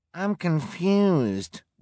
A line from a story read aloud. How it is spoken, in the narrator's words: whined a volunteer